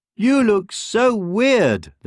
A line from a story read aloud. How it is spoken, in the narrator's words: sneered